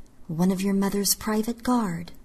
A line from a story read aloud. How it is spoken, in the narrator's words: I murmured